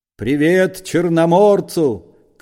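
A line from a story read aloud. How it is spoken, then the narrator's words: Shouted over engine roar. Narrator (Russian): крикнул Остап, когда машина с тракторным грохотом проносилась мимо Корейка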